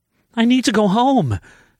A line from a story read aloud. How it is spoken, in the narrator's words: she cried